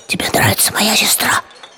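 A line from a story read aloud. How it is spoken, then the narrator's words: Whispered. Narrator (Russian): он сказал шепотом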